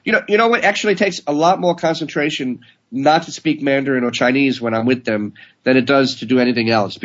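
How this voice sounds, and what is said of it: Marked Brooklyn accent. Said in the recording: “you have kind of a marked Brooklyn accent ... speaks Chinese with a Brooklyn accent ... I sound like Tony Soprano”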